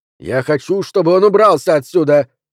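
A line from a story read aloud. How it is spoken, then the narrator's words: Bark. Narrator (Russian): рявкнул Джо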